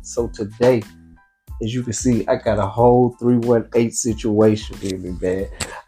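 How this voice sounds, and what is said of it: Thick regional accent. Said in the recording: “your accent just got thick as hell”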